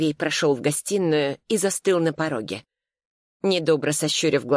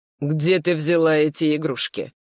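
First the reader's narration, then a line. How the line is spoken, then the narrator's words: Icy question. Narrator (Russian): ледяным тоном поинтересовался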